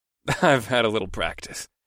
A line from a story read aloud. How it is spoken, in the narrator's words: I chuckled